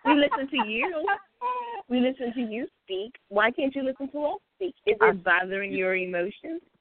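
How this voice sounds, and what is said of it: Southern US accent. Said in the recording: “that Carolina Kitty girl ... it sounds like I want to listen to it ... it's intoxicating to listen to it, the whole Southern accent”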